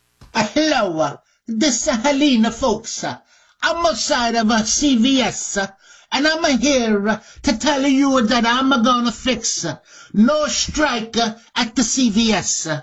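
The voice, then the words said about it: Put-on Italian accent. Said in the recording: “got an Italian accent”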